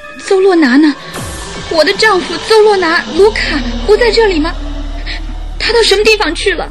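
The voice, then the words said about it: Trembling, shaky voice. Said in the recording (Chinese): “接着以颤抖的声音说”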